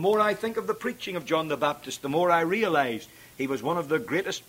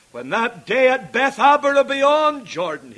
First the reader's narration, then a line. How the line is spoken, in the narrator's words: he cried